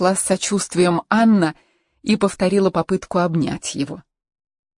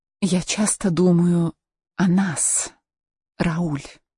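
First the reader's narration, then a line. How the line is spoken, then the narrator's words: Whisper. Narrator (Russian): прошептала она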